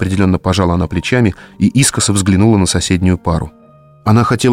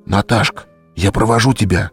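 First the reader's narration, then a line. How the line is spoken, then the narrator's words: Whisper in ear. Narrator (Russian): прошептал на ухо своей партнерши Петя Сидоркин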